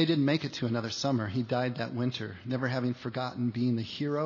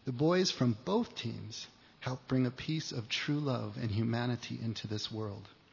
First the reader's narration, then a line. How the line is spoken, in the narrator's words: said the father softly, with tears now rolling down his face